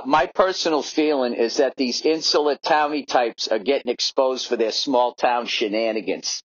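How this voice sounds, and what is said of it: Put-on Boston accent. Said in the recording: “a buddy of mine back in Boston ... I'll read it in his accent”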